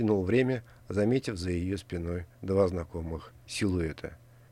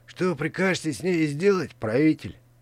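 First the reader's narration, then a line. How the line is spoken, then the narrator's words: Bodyguard hissing. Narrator (Russian): прошипел телохранитель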